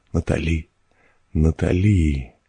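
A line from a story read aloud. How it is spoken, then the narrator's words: Uttered with effort. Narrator (Russian): выговорила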